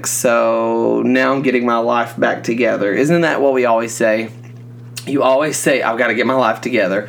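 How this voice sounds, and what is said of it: Congested, sick-sounding voice. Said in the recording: “I caught a head cold ... which you can probably tell by my voice, I'm still trying to get over this cold”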